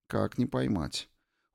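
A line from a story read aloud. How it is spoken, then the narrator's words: Cold. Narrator (Russian): холодно сказала Ирина Ивановна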